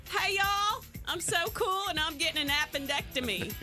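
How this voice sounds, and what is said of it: Put-on country urban accent. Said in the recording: “She wasn't talking country... she's talking like she was country, urban. Street, urban. Street country.”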